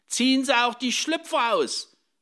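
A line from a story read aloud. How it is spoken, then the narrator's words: Woman calling after someone. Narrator (German): rief die Frau nach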